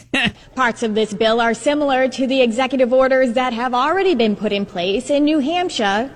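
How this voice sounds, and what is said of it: Boston accent slipping through. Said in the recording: “when the Boston accent slips out ... It also slipped out in pot ... Pots of this bill.”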